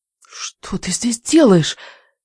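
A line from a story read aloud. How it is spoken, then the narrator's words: Hiss. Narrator (Russian): прошипела я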